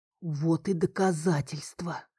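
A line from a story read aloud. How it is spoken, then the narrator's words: Disbelieving whisper. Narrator (Russian): прошептал он неверяще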